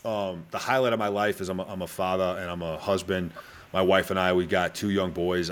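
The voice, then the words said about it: Mild Boston accent. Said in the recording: “originally from Boston, Mass, which probably most people listening or watching this right now has probably already figured out... I still talk the way I do... this is actually quite a dull version of what my accent used to be”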